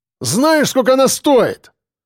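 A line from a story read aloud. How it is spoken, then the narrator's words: Exclamation. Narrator (Russian): воскликнул лысый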